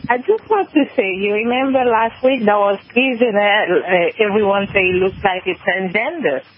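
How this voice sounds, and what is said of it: French accent. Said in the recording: “Sorry for my French accent.”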